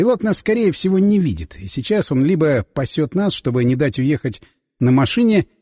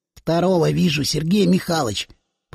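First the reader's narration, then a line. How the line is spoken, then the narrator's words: Whisper. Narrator (Russian): прошептал Соколов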